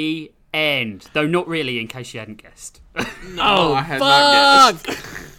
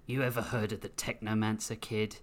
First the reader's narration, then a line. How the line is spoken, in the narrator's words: Grissom growled